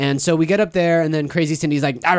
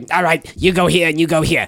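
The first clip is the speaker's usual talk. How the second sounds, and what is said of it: Imitates another person's voice. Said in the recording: “It's a great Crazy Cindy impression. ... That's pretty good. That's good, pretty good.”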